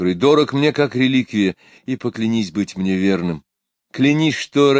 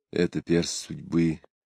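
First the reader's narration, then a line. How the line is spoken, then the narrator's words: Whisper. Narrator (Russian): прошептал Мирович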